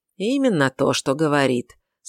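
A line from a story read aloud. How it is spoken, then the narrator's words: Calm. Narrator (Russian): спокойно сказала Ульрика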